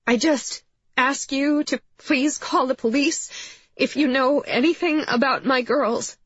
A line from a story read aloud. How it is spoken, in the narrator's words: she said, her voice shaking